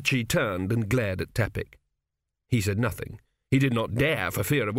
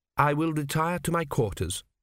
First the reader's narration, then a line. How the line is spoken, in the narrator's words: said Teppic coldly